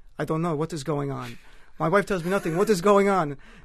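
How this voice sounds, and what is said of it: Imitated father's foreign accent. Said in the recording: “my father having an accent ... your dad's such a freaking weird accent ... he was born in Palestine”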